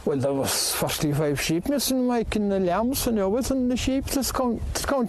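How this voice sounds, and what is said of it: Very thick Irish accent. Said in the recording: “the thickest Irish accent I've ever heard”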